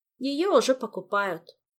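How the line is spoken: Sad woman's voice. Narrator (Russian): также печально сообщила художница

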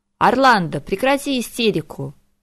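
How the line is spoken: Court mage barking. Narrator (Russian): рявкнул придворный маг

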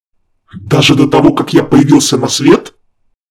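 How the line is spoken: Angry snapping. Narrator (Russian): Зло грызнулся Харган

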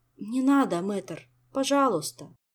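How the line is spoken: Heavy sigh. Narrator (Russian): тяжело вздохнул Мафей

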